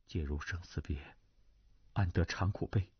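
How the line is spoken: Low recitation. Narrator (Chinese): 胡斐 跟着低声念道

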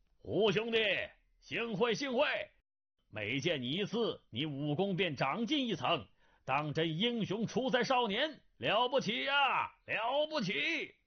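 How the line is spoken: Clear ringing voice after laughter. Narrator (Chinese): 一人朗声长笑，声音清越，跟着说道

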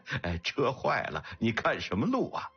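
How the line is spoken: Laughing heartily. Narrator (Chinese): 四宝忍不住大笑了起来

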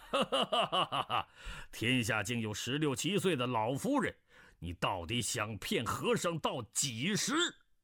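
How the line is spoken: Laughing. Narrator (Chinese): 鸠摩智笑道

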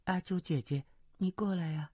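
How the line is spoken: Soft laugh, low voice. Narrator (Chinese): 阿碧轻轻一笑，低声道

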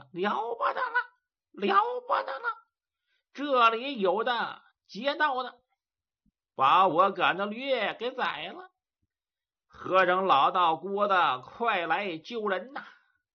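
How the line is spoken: Repeated shouting. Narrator (Chinese): 连三并四的那喊了一气

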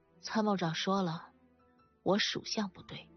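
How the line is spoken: Resigned sigh. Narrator (Chinese): 珍珍无奈地叹了口气

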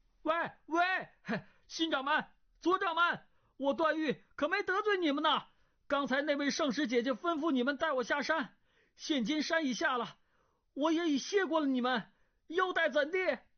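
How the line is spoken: Calling out. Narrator (Chinese): 段誉叫道

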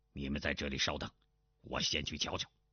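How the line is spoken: Low voice. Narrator (Chinese): 钟兆文低声道

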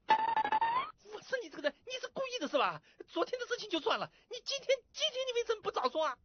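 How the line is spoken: Furious shouting. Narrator (Chinese): 小罗气得都快背过气去了，大声喊

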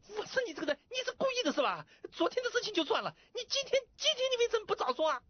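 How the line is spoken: Furious shouting. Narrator (Chinese): 那小罗 气得都快背过气去了 大声喊

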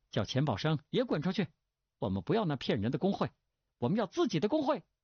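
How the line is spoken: Shout. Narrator (Chinese): 有人喊道

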